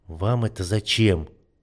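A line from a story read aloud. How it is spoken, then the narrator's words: Question through gritted teeth. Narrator (Russian): сквозь зубы спросил он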